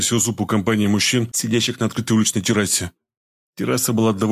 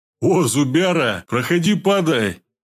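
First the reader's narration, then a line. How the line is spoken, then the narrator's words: Loud and joyful. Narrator (Russian): С радостью громко сказал пельмень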